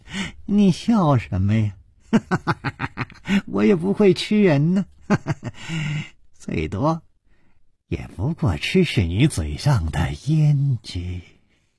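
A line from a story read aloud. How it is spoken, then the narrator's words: Cheerful, smiling. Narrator (Chinese): 脸上更是没有丝毫的悲戚的神色，反而笑嘻嘻地说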